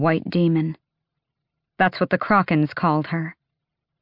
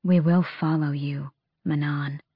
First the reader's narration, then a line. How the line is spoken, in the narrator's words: Asterin said softly